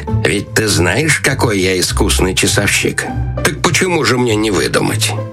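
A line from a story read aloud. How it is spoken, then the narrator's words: Quiet, strange laughing voice. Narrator (Russian): советник, засмеявшись каким-то особенно странным смехом, тихо сказал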